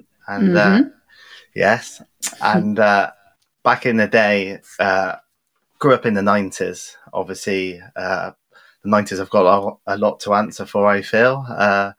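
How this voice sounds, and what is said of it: West Country English accent. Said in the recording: “I am originally from Bristol in the West Country. You can probably tell from the accent.”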